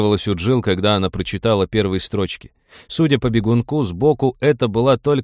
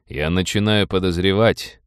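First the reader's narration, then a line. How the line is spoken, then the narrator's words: Grim. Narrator (Russian): мрачно сказал Роджер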